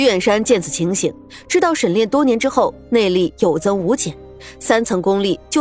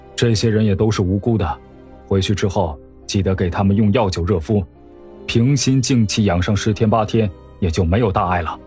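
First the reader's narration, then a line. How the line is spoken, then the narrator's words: Flat, calm. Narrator (Chinese): 沈炼淡淡的说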